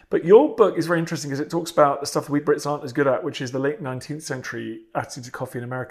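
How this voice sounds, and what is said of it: British accent. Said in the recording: “As Brits, where this podcast is based, as you're able to guess from my accent”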